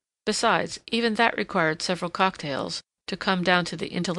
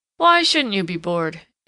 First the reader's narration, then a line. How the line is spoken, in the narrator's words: yawned Tom